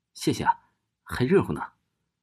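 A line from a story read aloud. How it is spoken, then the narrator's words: Girl, smiling. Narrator (Chinese): 那个女孩笑着对快递小哥说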